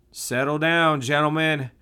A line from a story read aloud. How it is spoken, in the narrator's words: Saul called out to them